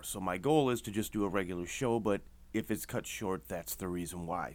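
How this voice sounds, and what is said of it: Slightly hoarse voice. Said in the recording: “my voice is a little hoarse. I'm dealing with the crud.”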